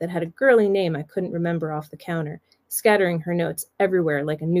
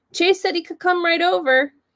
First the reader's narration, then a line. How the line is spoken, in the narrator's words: Taylor Jane yelled from the living room